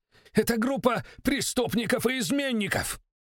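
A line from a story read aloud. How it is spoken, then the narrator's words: Shout. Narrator (Russian): крикнул он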